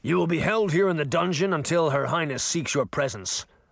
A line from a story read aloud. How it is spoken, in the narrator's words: the merman barked